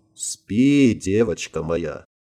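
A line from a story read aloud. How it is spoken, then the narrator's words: Sad smiling voice. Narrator (Russian): Грустно улыбнулся Марк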